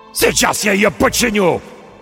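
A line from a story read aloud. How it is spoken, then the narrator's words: Shouting. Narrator (Russian): крикнул Рольф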